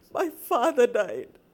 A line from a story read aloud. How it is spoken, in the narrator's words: sobbed